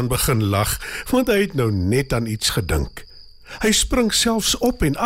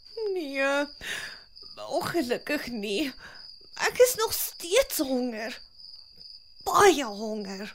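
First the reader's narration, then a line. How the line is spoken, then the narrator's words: Sad reply. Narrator (Afrikaans): Skilpad kyk hartseer na hom en antwoord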